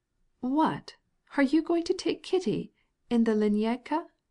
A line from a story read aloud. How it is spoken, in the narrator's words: exclaimed the princess reproachfully